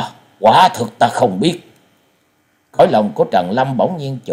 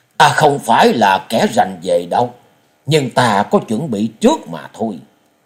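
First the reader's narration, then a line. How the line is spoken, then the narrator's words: Smiling. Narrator (Vietnamese): quái nhân mỉm cười nói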